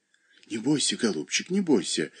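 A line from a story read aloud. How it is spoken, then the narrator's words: Whispering mother. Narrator (Russian): шептала ему мать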